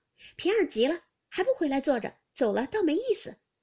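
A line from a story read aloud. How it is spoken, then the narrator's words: Calling out. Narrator (Chinese): 宝钗便叫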